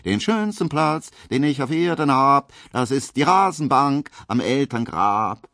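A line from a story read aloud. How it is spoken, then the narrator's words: Loud, shrill, off-key singing. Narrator (German): singt dazu ganz laut und schrill und falsch und unbekümmert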